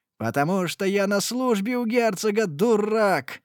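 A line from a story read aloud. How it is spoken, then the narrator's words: Shouted. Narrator (Russian): закричал де Валенса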